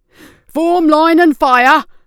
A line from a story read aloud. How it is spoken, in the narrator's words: one yelled